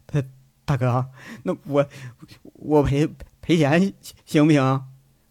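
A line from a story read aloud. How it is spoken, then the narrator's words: Mumbling. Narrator (Chinese): 那人在那喃喃的说着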